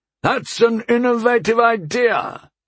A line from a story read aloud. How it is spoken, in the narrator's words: he called out to me over the horrendous roar the thing was giving